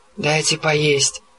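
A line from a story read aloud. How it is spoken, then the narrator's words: Moan. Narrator (Russian): простонал Гровер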